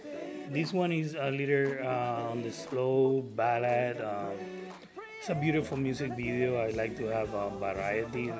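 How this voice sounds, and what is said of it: Puerto Rican accent. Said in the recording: “my Puerto Rican accent”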